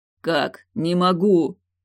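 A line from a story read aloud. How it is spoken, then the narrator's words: Strained, struggling wheeze. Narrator (Russian): Судорожно пытаясь вырваться из незримых оков, прохрипел Явр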